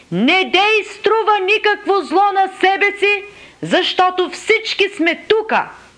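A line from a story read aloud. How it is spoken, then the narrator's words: Loud shout. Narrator (Bulgarian): Павел извика със силен глас, думайки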